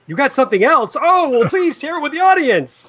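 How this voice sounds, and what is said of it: TV shopping host voice. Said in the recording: “How do we do the QVC voice?”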